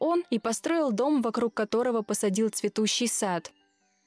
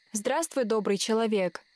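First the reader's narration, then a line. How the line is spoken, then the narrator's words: Plain. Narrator (Russian): сказала она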